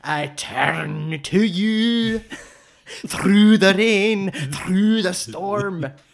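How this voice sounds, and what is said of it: Singing in a put-on Scottish accent. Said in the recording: “I'm going to sing I Turn to You in a Scottish accent.”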